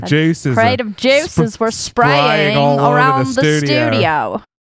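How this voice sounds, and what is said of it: Put-on Australian accent. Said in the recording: “you have to do it with an Australian accent”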